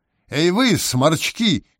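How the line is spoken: Shouting mushroom. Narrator (Russian): крикнул гриб-боровик

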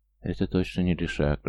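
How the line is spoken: Whispered. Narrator (Russian): прошептал Стоян

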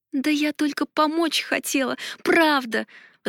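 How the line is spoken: Meek pleading. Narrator (Russian): взмолилась я, стараясь стать маленькой и незаметной, словно мышка

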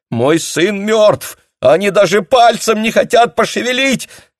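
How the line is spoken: Shouting. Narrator (Russian): кричала она

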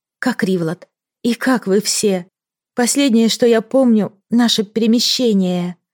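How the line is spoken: Whispered. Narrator (Russian): прошептала

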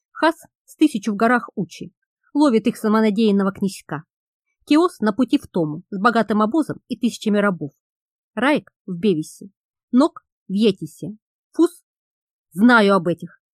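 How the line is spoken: Irritated interruption. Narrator (Russian): Раздраженно оборвал слугу Тан

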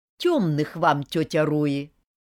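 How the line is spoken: Loud announcement. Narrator (Russian): Громко возвестила я

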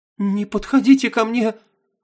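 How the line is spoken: Frightened babbling. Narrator (Russian): пролепетала Нина

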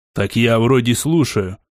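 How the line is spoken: Snapping back. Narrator (Russian): огрызнулся я

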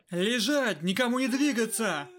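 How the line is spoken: Shouted. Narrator (Russian): крикнул тот на заложников

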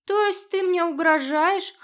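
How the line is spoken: Uneasy chuckle. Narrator (Russian): хохотнул Барсон, но уже без прежней бравады

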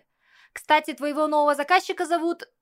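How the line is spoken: Shouted out. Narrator (Russian): выкрикнул Кирилл

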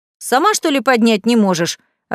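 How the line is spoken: Snapping. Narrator (Russian): огрызнулся Василий

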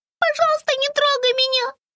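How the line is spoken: Mouse squeaking. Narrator (Russian): пискнула мышка

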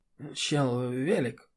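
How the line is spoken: Muttered from behind. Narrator (Russian): бормочет Диана за спиной

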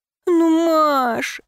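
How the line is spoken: Pleading. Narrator (Russian): взмолилась я

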